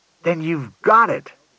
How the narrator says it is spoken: said Collins triumphantly

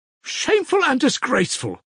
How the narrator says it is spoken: Kalganov, flushing crimson, cried in a boyish voice, trembling with emotion

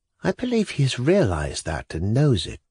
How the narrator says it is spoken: Lisa added dreamily, as though to herself

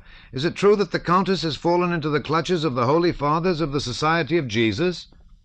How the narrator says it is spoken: he shouted through the doorway after Pierre

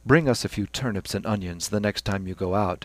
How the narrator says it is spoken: said Stephen dryly

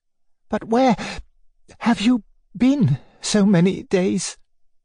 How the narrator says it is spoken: she said in a suppressed and breaking voice

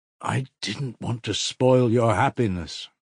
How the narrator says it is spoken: Mitya faltered blissfully

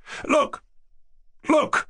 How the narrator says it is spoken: cried Yevgeny Pavlovich

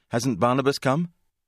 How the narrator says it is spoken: Breathless, asked

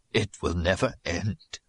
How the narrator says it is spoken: he said in a broken voice

